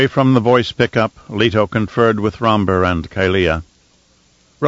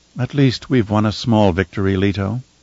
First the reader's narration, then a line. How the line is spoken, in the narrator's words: Kylea said in her soft voice